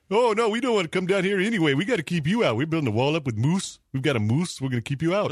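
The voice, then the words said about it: Put-on Canadian accent. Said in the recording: “could do his Canadian accent.”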